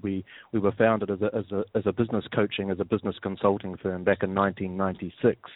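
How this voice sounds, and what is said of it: New Zealand accent. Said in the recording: “as you can probably gather from my accent, I'm not from around here. I'm originally from New Zealand”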